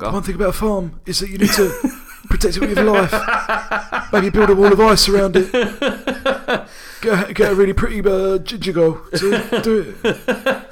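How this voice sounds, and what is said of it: Imitates another person's voice. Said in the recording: “my Kit Harington impression for the week.”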